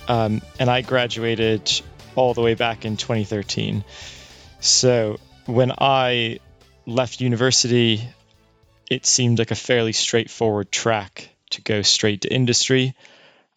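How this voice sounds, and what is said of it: Slight American accent. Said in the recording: “I went to university in America, so I'm sure you can hear a bit of the accent coming through.”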